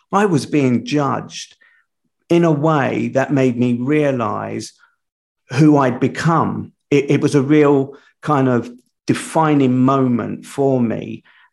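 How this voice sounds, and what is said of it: South London accent. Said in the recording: “my South London accent, and the prison slang to boot”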